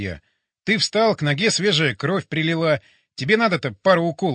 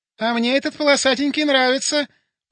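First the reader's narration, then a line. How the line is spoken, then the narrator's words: Squeaky female voice. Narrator (Russian): пропищал женский голос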